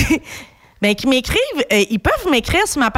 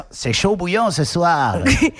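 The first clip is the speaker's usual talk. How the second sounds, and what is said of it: Put-on French accent. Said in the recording (French): “Avec leur accent.”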